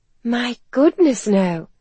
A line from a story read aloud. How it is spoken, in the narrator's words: Helen said earnestly